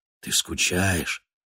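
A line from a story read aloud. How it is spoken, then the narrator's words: Whispered question. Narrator (Russian): спрашивал он шепотом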